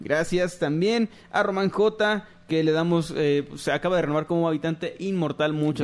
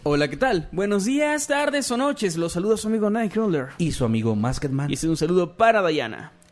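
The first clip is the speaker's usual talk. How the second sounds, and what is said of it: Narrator announcer voice. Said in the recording (Spanish): “Me envían un saludo con voz de narrador.”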